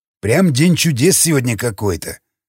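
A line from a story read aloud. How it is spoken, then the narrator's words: Ogre's snort. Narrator (Russian): хмыкнул людоед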